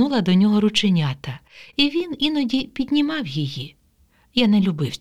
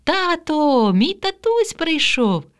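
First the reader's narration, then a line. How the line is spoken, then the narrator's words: Joyful shout. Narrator (Ukrainian): Катя радісно кричала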